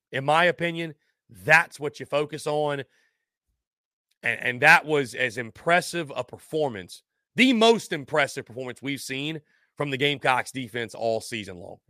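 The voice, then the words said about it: Slightly strained, worn-out voice. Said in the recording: “my voice is going on me just a little bit... the voice tends to go a little bit”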